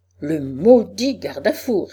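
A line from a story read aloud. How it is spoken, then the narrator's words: Exclaiming. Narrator (French): s'écriait-il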